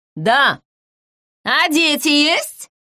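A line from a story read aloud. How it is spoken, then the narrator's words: Shouted over shoulder. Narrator (Russian): крикнул через плечо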